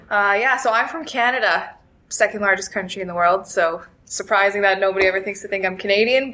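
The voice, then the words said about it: Canadian accent with slight twang. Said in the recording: “a little twang in your accent”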